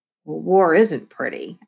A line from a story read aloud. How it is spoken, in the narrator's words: I grumbled